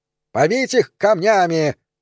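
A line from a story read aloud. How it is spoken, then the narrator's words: Shouted. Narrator (Russian): закричал третий житель Вутона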